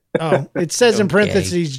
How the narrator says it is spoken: John laughs

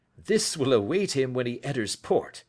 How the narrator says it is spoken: said he, chuckling

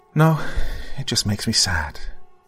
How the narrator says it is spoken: she said in a soft voice that, to the man, danced like a melody

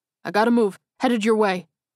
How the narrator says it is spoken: he yelled into the radio

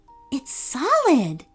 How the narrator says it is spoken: said in a hushed voice

